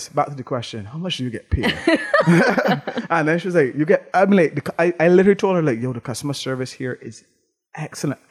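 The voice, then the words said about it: Barbadian accent. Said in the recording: “oh, I love your accent. Where are you from? Well, I was like, Barbados.”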